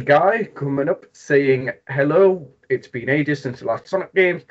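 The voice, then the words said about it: Geordie English accent. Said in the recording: “it's Geordie. It's from like the Newcastle area ... silky accent”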